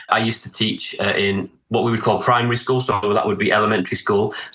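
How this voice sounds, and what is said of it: Northern English accent, Manchester. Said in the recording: “your beautiful accent ... I'm from the north of England in the UK ... I have a little bit of a Manchester accent, but I'm from the northeast originally”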